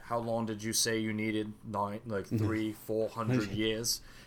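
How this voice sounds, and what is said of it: Poor put-on British accent. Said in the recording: “terrible British accent”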